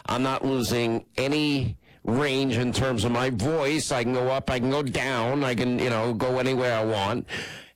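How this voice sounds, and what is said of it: Congested, nasal voice from a cold. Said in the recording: “all it is a cold ... We hear it through your nose.”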